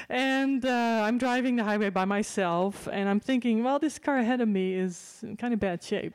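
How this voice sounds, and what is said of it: Dutch accent. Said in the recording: “my parents go back to the Netherlands, so now you know where my accent is from”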